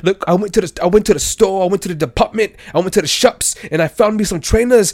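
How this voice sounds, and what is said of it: Put-on London multicultural accent. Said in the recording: “Indian people, Pakistanis, and people who live in London. Mm. They all have that accent. ... using that accent”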